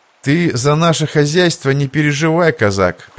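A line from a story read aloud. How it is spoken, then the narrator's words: Calm reply. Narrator (Russian): спокойно ответил Иван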